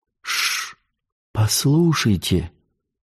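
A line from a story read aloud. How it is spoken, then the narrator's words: Whispered. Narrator (Russian): сказала Марион шепотом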